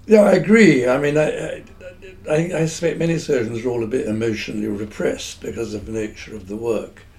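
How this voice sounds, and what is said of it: Received pronunciation English accent. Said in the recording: “I have this sort of standard received pronunciation accent”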